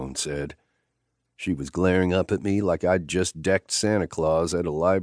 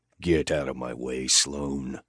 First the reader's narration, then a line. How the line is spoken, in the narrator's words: I snarled in her face